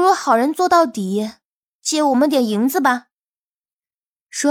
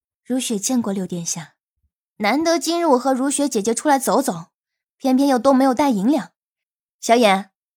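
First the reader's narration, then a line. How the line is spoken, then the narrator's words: Cool, detached. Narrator (Chinese): 如雪……淡淡的说道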